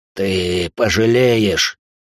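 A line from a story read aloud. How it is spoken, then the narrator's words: Hoarse. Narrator (Russian): хрипит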